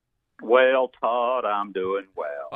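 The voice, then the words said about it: Exaggerated Southern accent, like Mr. Haney. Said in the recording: “I'm going to give you my full-blown Southern accent today ... You sounded like Mr. Haney from Green Acres for a minute.”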